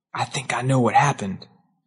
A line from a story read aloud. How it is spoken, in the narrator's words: he leaned close to me and whispered